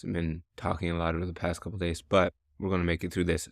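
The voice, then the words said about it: Hoarse, strained voice. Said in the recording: “I'm kind of losing my voice.”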